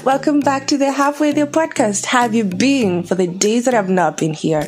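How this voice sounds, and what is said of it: Excited, energetic speaking voice. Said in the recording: “I'm so excited to be back. You can hear it in my voice, right?”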